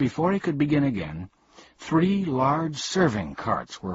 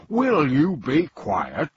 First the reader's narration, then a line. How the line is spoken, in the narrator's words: growled Azaz angrily